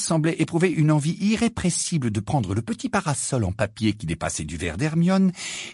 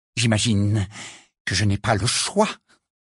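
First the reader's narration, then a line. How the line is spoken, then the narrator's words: Slightly trembling voice. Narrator (French): dit Rita d'une voix légèrement tremblante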